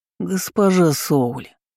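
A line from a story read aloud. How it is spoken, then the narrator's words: Snorting. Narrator (Russian): Фыркнула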